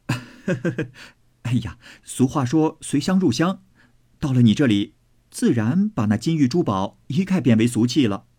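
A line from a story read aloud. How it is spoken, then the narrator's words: Laughing. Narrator (Chinese): 宝玉笑道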